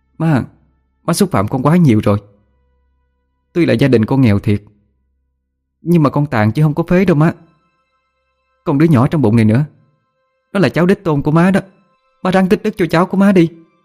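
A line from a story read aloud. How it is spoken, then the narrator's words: Raised, offended voice. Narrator (Vietnamese): qua câu nói xúc phạm quá đáng của mẹ chồng làm cho cô phải to tiếng để đáp lời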